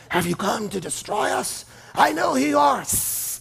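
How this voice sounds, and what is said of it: Dark raspy snake-like demon voice. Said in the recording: “demons sound like demons ... dark, raspy ... sound like a snake”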